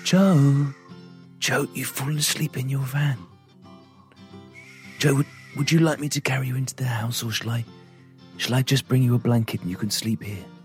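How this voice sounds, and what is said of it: Weird, creepy voice. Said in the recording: “that weird, creepy voice”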